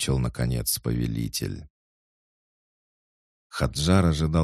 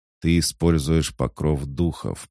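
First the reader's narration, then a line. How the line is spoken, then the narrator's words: Growl. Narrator (Russian): прорычал краснокожий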